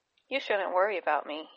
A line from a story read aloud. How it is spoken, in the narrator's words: he said